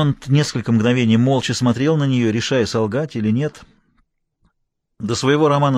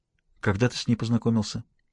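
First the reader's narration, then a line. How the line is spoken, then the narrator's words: Unexpectedly quiet question. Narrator (Russian): Дэви спросила неожиданно тихим голосом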